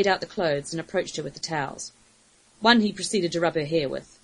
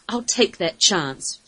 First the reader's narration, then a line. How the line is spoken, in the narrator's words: growled